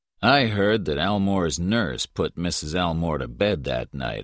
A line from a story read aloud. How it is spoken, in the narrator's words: I said